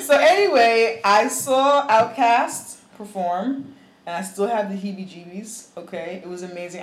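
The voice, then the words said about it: Hoarse, worn-out voice. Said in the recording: “I'm losing my voice. Like, I lost my voice like at the show because I'm getting so excited about it.”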